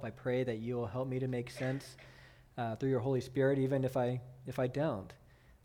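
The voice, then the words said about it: Gravelly, tired voice. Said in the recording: “I'm fighting off a cold... my voice is gravelly. I know, you know that I'm tired.”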